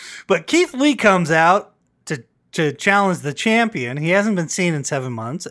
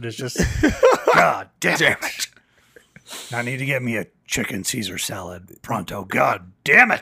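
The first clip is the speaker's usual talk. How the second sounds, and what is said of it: Vince McMahon impression. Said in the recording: “my Vince McMahon impression”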